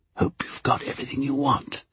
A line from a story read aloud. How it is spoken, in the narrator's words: whispered